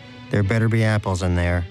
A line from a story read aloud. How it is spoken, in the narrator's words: said Danish